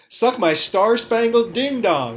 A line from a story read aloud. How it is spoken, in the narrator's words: yelled